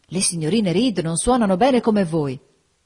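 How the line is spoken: Enthusiastic exclamation. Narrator (Italian): esclamò con entusiasmo

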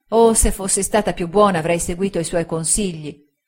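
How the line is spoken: Girl exclaiming with desperate regret. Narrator (Italian): esclamò la ragazza con disperato rimpianto

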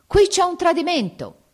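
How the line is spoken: Shouting. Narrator (Italian): grida

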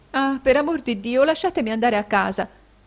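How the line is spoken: Pleading exclamation. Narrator (Italian): esclamò Caterina

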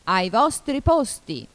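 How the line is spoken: Queen's thundering shout. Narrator (Italian): gridò la regina con voce tonante

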